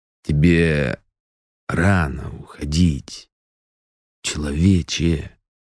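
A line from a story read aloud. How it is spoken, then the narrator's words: Close, inhuman voice. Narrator (Russian): Слова прозвучали совсем рядом, настолько нечеловеческим голосом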